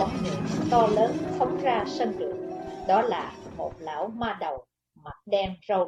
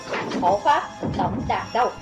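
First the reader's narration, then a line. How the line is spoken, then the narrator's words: Shout. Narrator (Vietnamese): Lão ma đầu quát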